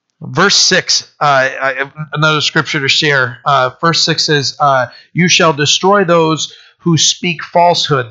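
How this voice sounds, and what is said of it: Tired, strained voice, nearly gone. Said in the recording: “my brain is starting to shut off. My voice is gone”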